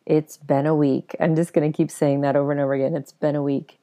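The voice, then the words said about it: Slightly raspy, husky voice. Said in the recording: “I have a little bit of a raspy voice? It's a little bedroom voice”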